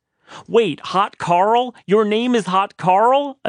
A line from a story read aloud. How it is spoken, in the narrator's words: a surprised Christina yelled even louder